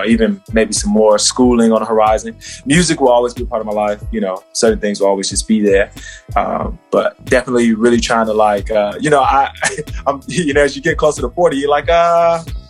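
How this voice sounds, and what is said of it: Slight Australian accent. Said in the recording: “It's the accent for me. It's your Australian accent. ... that undertone is there.”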